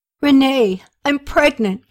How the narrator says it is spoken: Katie exclaimed

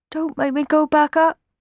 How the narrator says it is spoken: whimpered Sammy

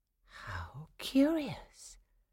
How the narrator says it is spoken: Clara whispered to herself, suddenly calm again, as though the Nutcracker's presence had given her courage

